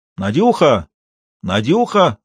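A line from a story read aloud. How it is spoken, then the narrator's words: Shouted twice. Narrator (Russian): раза два крикнул Исаев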